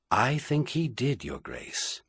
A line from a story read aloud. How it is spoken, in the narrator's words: Merlin said quietly